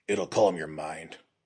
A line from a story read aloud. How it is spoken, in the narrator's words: growled